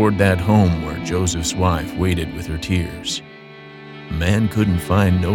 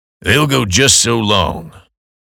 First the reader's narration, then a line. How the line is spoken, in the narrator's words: growled Brother Clausen